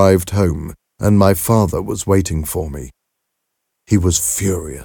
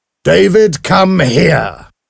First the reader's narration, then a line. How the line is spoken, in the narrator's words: shouted